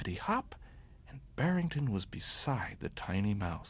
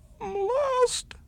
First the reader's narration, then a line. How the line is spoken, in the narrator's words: sobbed the little fellow